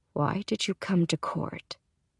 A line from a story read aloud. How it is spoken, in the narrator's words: He asks in a low tone